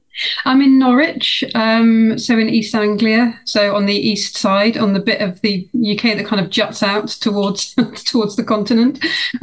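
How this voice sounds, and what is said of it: British English accent. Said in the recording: “your lovely accent, it's obvious that you're not from here. You're joining us from the UK.”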